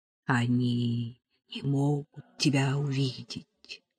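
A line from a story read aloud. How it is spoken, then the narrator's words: Whisper from behind. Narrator (Russian): шепнул сзади Венедиктов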